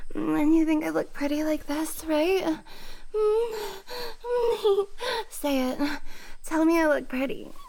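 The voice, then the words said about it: Ditzy bimbo-style voice. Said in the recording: “sound like a stupid bimbo”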